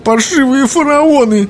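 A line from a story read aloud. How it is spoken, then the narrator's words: Sobbing. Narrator (Russian): прорыдала она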